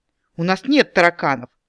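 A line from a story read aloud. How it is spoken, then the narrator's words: Snorting dryad. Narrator (Russian): фыркнула дриада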